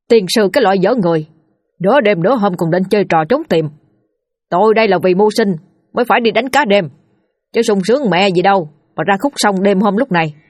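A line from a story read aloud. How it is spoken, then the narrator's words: Shouting. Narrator (Vietnamese): quát lên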